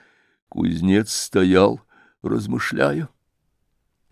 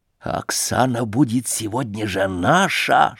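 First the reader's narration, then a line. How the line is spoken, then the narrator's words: Whisper. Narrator (Russian): шепнул он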